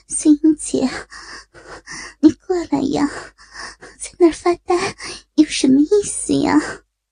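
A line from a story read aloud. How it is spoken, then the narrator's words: Panting call. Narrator (Chinese): 张丽……一边喘息着一边叫道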